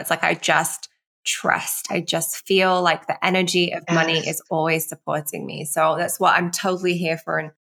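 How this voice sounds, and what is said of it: Raspy, croaky voice. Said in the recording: “I have a really bad throat today... hearing me croaking... We love the raspy voice... Raspy.”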